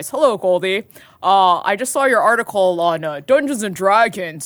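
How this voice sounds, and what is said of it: Put-on CEO voice. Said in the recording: “I'm doing my best CEO voice.”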